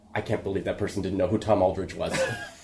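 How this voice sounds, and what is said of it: Impression of Niles from Frasier. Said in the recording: “It's a good Niles impression, actually.”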